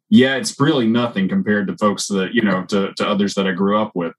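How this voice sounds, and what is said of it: Distinct regional accent. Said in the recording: “I have some of an accent ... that I have a very distinct accent”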